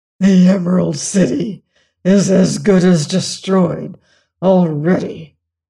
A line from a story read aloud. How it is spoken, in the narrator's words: muttered the Grand Gallipoot